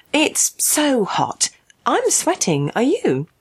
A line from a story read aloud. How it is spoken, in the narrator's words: Peggy once more attempted to suppress her rage, saying, apparently calmly